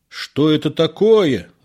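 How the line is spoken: Doctor shouting. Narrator (Russian): закричал врач

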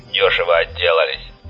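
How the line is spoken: Grumbling. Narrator (Russian): проворчал Вольво

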